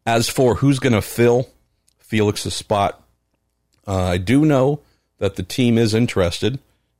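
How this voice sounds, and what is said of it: Rough, worn-out voice. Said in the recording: “my voice is kind of trash already”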